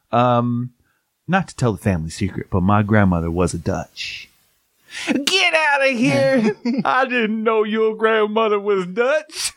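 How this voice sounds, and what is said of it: Imitates a movie character's voice. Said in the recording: “That was pretty good, actually. That was a good impersonation of that dude.”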